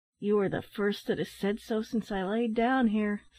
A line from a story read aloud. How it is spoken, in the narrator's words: sighed the man